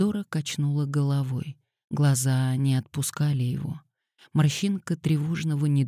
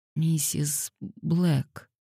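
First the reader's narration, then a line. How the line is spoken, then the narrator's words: Hoarse. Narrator (Russian): хрипло произнесла она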